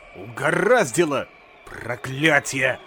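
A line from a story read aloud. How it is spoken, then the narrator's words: Muttering. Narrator (Russian): бормотал доктор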